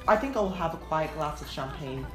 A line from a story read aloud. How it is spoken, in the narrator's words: he said